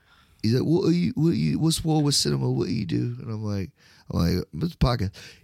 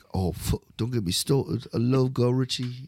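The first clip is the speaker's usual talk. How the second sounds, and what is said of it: Put-on British accent, fairly decent. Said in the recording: “I would rather really do a great British accent ... it wasn't bad”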